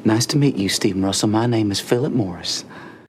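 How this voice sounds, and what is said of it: Inaccurate put-on Texan Southern accent. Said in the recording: “he can do a Southern ... this is a very specific accent ... supposed to be from Texas. It's not accurate at all”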